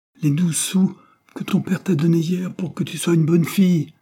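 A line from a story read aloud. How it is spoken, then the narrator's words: Exclaiming. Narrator (French): s'écria Patience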